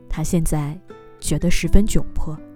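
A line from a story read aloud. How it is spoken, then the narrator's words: Low voice. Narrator (Chinese): 小王子低声说道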